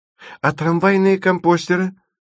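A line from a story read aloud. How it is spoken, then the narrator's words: Frantic young woman's scream. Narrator (Russian): вне себя закричала девушка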